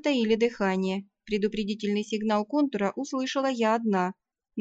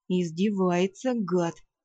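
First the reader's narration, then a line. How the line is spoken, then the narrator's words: Hateful hiss. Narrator (Russian): с ненавистью прошипел вампир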